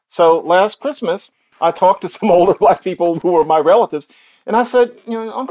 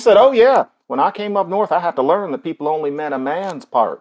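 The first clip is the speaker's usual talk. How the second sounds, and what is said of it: Deliberately bad put-on Black accent. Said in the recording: “That's the worst black accent I've ever done.”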